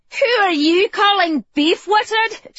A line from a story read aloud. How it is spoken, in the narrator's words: She laughed at him